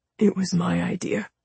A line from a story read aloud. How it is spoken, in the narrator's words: Mark said, his voice just barely audible